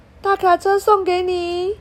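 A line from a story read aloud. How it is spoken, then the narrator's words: Shouting. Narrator (Chinese): 他大喊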